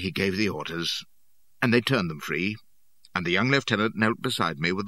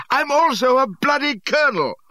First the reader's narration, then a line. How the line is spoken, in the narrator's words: I hollered